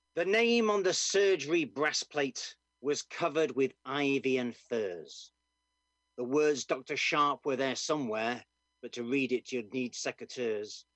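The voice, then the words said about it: Doncaster English accent. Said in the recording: “I am also Scottish, as you can hear from my Doncaster accent.”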